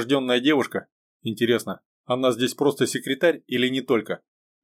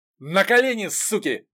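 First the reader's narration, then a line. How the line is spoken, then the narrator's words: Shouted angrily. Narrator (Russian): заорал один из ворвавшихся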